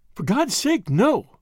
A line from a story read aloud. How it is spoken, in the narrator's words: cried Bennett